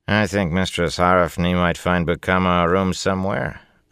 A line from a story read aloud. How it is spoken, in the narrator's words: a man's familiar voice said dryly behind Lan